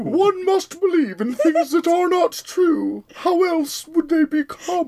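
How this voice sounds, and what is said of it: Posh fancy-lady voice. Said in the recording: “Now do it like a fancy lady.”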